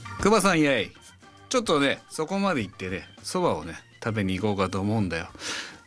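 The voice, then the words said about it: Rakugo storyteller character voice. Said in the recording (Japanese): “落語のお蕎麦を食べるのをやってほしいです...落語家さんのようにうまくできるでしょうか”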